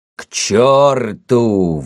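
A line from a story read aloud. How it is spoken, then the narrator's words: Exclaiming. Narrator (Russian): воскликнул он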